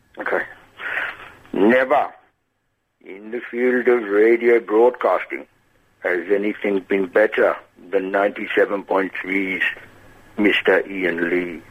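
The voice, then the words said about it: Impression of a famous voice. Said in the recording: “do an impression ... you might be able to realise who it is”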